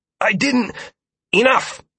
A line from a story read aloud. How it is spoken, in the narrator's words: Dire spat